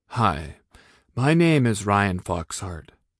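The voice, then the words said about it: Slightly lowered voice imitating someone. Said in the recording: “I lowered my voice just a tad to do an extraordinarily accurate impression”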